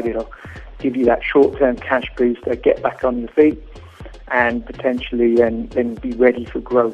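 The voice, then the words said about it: Foreign, non-South African accent. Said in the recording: “As you may tell from my accent, I'm not from South Africa.”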